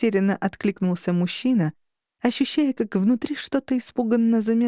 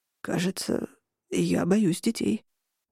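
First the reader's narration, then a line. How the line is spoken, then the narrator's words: Strangled hoarse voice. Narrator (Russian): просипел сдавленно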